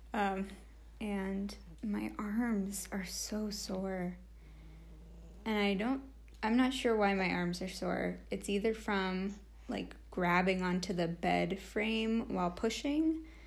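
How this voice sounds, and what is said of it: Hoarse voice. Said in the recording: “my voice is hoarse from screaming”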